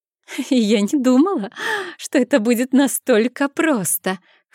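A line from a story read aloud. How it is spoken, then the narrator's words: Laughing loudly. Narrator (Russian): хохотала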